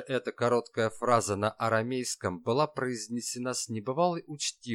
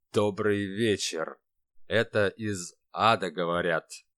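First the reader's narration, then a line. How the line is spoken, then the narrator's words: Slow, through gritted teeth. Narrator (Russian): сквозь зубы произнес шеф, медленно вспоминая подзабытый им древний язык Палестины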